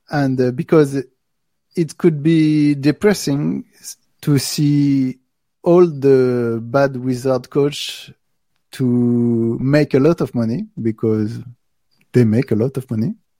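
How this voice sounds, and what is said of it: French accent. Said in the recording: “Sorry for my French accent.”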